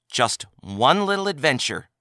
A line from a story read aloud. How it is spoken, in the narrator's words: she stated firmly